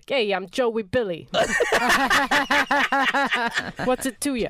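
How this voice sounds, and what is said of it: Italian New York accent. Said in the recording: “in an Italian, like a New York accent”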